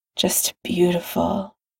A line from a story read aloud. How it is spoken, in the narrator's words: Tony murmurs